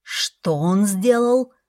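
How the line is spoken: Growling question. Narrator (Russian): спросил я с рычанием

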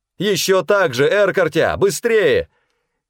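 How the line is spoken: Shouted. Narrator (Russian): крикнула мне Чера Эрбархан

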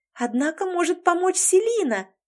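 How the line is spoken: Joyful exclamation. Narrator (Russian): радостно воскликнула Лори

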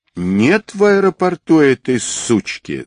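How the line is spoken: Angry words through teeth. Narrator (Russian): зло процедил Квадрат

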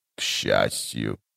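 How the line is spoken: Dry, impassive voice. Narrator (Russian): продолжил Тлен своим обычным, сухим и беспристрастным голосом

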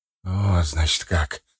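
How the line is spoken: Whisper. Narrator (Russian): сказал он шепотом

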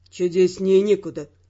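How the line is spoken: Gloomy. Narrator (Russian): мрачно отозвался Раймонд

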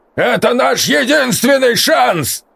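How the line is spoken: Barking, steely. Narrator (Russian): рявкнул Матвеич, и в его голосе снова зазвучала сталь

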